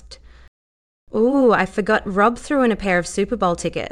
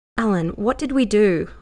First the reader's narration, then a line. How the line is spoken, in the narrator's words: Lara said, her voice even